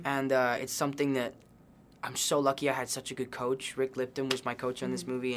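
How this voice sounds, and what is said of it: Southwest London English accent. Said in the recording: “you are, of course, not a native of Queens. ... I am a native of Southwest London, darling.”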